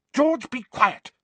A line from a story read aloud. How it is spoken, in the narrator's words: snapped Mrs